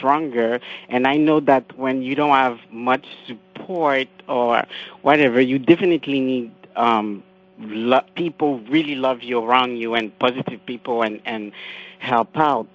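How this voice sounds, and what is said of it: French Creole accented English. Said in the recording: “You have a lovely accent ... it's not easy when you speak French, Creole, and English.”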